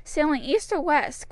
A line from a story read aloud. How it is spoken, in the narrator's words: cried the soldier